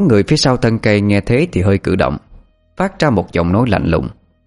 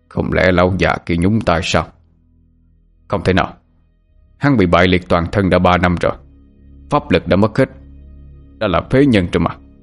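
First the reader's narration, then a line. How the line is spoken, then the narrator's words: Muttering to oneself. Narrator (Vietnamese): người đó lầm bầm như tự nói với chính mình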